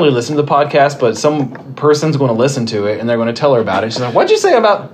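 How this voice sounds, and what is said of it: Usual voice. Nothing is said of it.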